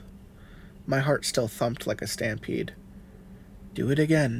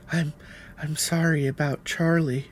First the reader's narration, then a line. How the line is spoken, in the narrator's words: she whimpered